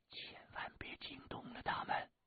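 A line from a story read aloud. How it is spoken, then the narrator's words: Whispering. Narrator (Chinese): 洛宁 悄声的说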